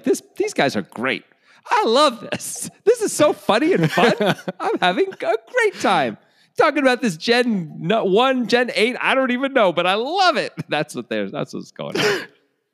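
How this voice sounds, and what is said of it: Impression of an enthusiastic listener. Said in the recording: “That was a good impression of one of our listeners”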